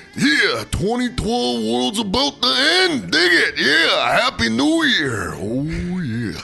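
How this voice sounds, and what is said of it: Macho Man Randy Savage impression. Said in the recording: “Do Macho Man Randy Savage.”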